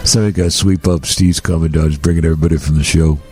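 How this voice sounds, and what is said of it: Imitates another person's voice. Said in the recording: “It's my new Shaq impression I'm working on. ... I thought I nailed it. ... It's pretty good. ... I thought the Shaq impression was terrific.”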